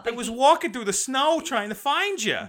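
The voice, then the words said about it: Thick New York accent. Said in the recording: “This boy has the thickest New York accent”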